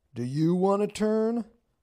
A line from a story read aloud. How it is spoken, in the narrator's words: one yelled